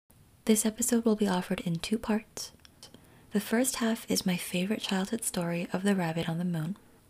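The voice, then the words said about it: Gentle, soothing bedtime-story voice. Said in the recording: “my voice is intended to gently lull you into dreamtime”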